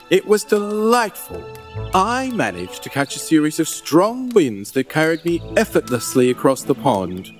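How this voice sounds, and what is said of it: A charming accent. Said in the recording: “Oh, I just love hearing you talk. That accent is to die for.”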